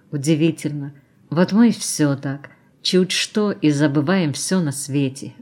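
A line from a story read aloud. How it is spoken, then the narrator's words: Sighed. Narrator (Russian): вздохнула она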